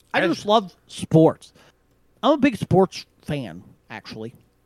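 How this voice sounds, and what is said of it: Imitates his own voice. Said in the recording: “good impression of yourself.”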